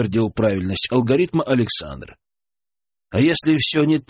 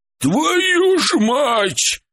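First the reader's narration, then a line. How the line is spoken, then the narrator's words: Shout from behind door. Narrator (Russian): выкрикнул Харитон из-за двери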